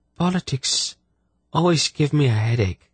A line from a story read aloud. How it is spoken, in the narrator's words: she sighed